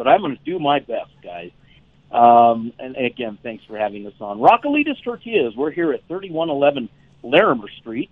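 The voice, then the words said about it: Hoarse, sore-throated voice. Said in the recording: “Excuse my voice. I'm a little sore in the throat here”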